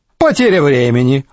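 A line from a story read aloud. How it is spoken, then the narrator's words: Snorted. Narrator (Russian): фыркнул тощага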